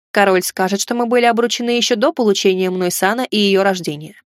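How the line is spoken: Grunt. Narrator (Russian): хмыкнул

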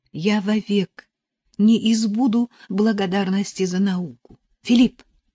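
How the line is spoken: Fervent exclamation. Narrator (Russian): С горячностью воскликнула Нелли

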